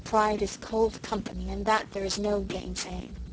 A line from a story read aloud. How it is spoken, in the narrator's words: Susan sighed bitterly